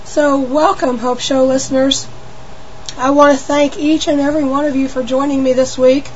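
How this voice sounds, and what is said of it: Hoarse, squeaky, shaky sick voice. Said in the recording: “I've had a cold this week, and so I probably sound a little funny ... laryngitis ... I sound like a mouse ... my voice is a little bit shaky”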